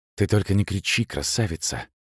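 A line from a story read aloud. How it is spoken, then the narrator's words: Whisper in the ear. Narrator (Russian): шепнул он в ухо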